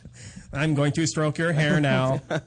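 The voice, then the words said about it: Creepy robot voice. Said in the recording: “You guys are the worst robots ever. Like, seriously creepy ... My robot voice”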